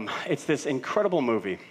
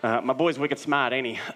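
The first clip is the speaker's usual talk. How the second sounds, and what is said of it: Put-on Boston accent. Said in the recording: “That's all the Boston accent I can do.”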